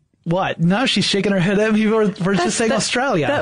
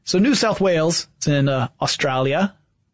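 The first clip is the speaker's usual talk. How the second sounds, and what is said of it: Attempted Australian accent. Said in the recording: “That was a terrible accent. ... My Australian accent is amazing.”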